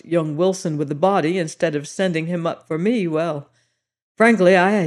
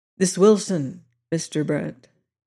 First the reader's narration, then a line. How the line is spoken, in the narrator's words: Cleek asked quietly